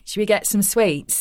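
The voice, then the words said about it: Put-on Manchester accent. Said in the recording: “more like a Manchester accent.”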